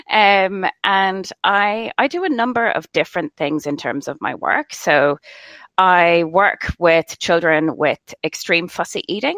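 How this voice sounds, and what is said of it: Irish accent. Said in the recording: “I'm from Ireland originally, if you didn't guess by my accent.”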